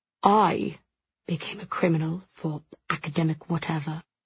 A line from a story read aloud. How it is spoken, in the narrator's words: Jules says softly, his expression utterly calm